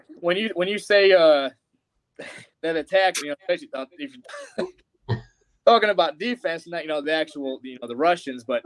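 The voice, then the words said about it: Slight Southern American accent. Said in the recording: “You got that Southern accent going. ... being from the Midwest, but I've lived here for 16 years, so I've started to pick up a little bit.”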